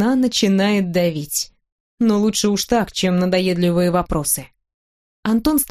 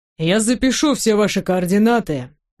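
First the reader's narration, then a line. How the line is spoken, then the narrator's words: Calm young man. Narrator (Russian): спокойно произносит парень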